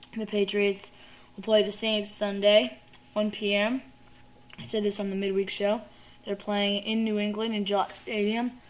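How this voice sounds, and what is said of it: Hoarse, weak voice. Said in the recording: “Sorry, I have no voice here. I'm losing my voice”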